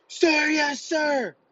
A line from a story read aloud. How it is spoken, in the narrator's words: screaming at the top of my lungs